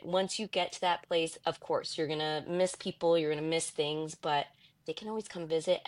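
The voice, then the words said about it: New York accent. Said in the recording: “She's from New York. ... She's still got her New York accent.”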